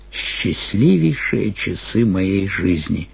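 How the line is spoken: Sad and quiet. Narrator (Russian): сказал, наконец, печально и тихо

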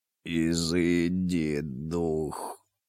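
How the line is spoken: Hoarse. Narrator (Russian): хриплым голосом произнес Тлан-и-Мас

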